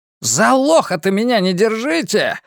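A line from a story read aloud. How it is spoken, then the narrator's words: Yelling. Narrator (Russian): завопил Харви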